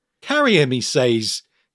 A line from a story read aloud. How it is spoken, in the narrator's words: he muttered, chuckling